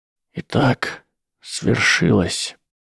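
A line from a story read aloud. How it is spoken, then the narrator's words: Near whisper. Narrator (Russian): сказал Альбус Дамблдор почти шепотом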